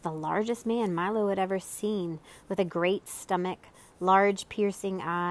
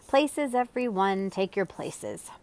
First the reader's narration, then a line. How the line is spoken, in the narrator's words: calling irritably